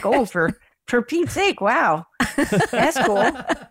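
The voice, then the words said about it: Exaggerated Midwestern accent. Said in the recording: “All of a sudden, my Midwestern accent came out.”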